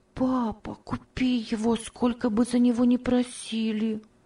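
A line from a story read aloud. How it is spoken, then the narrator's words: Soft whisper. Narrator (Russian): тихо шептала Ева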